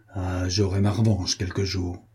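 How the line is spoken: Smiling murmur. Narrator (French): comme il souriait, murmura-t-il

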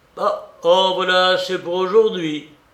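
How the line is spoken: Exclaiming. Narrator (French): s'écria le baron

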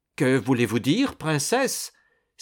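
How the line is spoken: Exclaiming. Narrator (French): s'écria Malatesta

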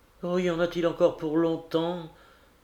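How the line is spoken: Weak voice. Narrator (French): demandai-je d'une voix faible

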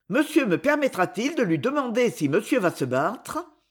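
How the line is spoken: Fairly cheerful, smiling. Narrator (French): Il sourit assez gaiement

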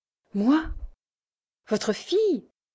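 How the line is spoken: Exclaiming. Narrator (French): s'écria-t-elle

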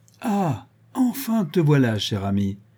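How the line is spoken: Joyful exclamation. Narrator (French): s'écria Barnett joyeusement

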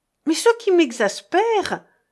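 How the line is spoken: Exclaimed. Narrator (French): s'écria Régine

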